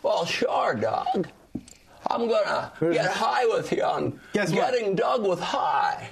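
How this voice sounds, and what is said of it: Jimmy Stewart impression. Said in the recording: “Jimmy Stewart ... Kids don't like that impression.”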